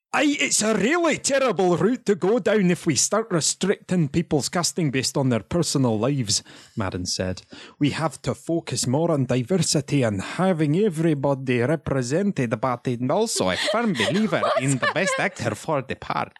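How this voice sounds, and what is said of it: Put-on Scottish accent, fading. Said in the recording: “do it in a Scottish accent ... You kind of lost it. It started off as a really strong start.”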